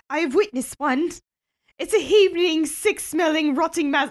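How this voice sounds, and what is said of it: Badly done put-on accent. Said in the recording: “I'm not going to do the accent. ... That was bad. ... Very bad.”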